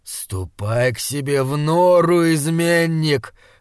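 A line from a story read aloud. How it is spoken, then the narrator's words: Growled. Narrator (Russian): зарычал он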